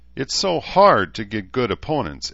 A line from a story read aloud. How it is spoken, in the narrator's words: Edmund sighed